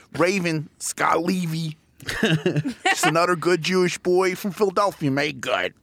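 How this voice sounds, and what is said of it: Subtle Philadelphia accent. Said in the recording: “Pick up that accent. You want a subtle Philly accent?”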